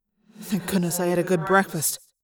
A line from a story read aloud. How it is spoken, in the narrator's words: I muttered